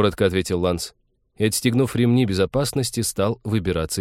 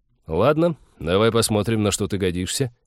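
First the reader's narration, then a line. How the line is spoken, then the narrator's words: Snort, then said. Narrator (Russian): Тед неожиданно хмыкнул, сказал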